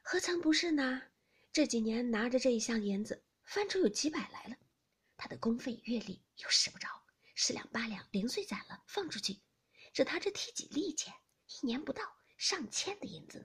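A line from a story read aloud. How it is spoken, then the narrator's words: Laughing. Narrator (Chinese): 平儿笑道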